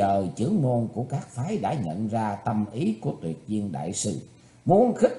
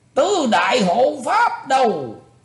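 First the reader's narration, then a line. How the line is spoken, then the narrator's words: Old man's deep shout. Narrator (Vietnamese): lão trầm giọng quát lên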